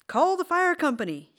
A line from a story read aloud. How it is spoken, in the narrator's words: he hollered